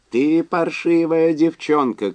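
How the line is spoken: Shouting. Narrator (Russian): кричал Уэнлис

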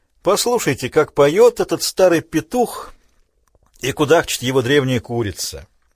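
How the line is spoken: Smiling. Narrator (Russian): Питер фон Габер улыбнулся

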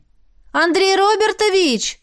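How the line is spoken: Louder shout. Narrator (Russian): Крикнула громче

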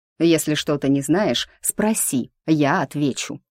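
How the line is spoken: Hissing through clenched teeth. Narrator (Russian): сквозь стиснутые зубы прошипел маг

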